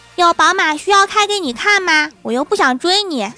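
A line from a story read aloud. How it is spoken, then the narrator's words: Loud. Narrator (Chinese): 郭晓霞大声地对小女孩说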